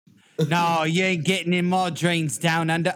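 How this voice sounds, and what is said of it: Put-on Australian accent. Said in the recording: “I'm terrible with fucking accents... No, that was good... That was a good.”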